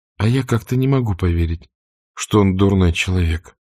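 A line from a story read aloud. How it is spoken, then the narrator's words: Soft. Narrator (Russian): мягко проговорила Мелани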